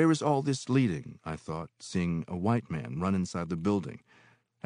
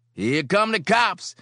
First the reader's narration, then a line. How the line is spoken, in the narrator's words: yell